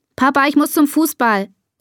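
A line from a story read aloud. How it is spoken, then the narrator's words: Calling out. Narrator (German): ruft Bea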